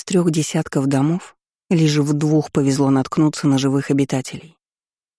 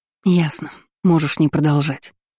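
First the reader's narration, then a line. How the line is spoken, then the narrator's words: Sighed. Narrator (Russian): я вздохнула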